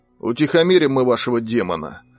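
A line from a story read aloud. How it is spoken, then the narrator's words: Plain. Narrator (Russian): ответил Петр Дмитриевич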